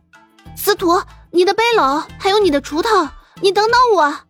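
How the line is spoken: Shouting while running. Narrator (Chinese): 一边跑一边大声的喊

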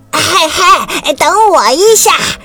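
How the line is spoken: Sudden shout. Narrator (Chinese): 突然，一只青蛙喊道

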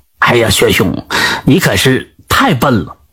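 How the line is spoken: Low voice. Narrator (Chinese): 低声对薛明说道

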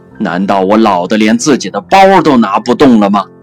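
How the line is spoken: Angry roar. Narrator (Chinese): 导师终于愤怒地咆哮了

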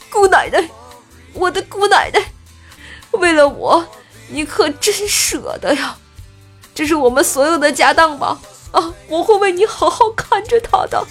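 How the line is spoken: Crying. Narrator (Chinese): 杰哥 哭着说道

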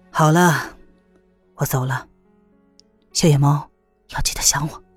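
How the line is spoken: Sighing, tender. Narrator (Chinese): 黑衣人叹了口气，然后说

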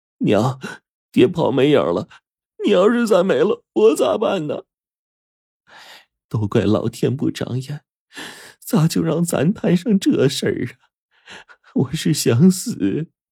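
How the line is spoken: Desperate pleading. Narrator (Chinese): 他就抱着母亲苦苦哀求说

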